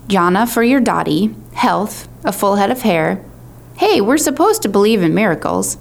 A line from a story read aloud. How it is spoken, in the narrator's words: he exclaimed when Shahir smirked